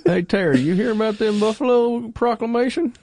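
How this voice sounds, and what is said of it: Put-on Montana rural accent. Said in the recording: “why does he have to have a southern accent? ... That was a genuine Montana accent”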